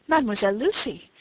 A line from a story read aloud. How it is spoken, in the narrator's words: cried Rosine, bursting in